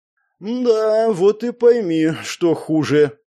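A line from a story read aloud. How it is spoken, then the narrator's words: Sighing. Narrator (Russian): вздохнул я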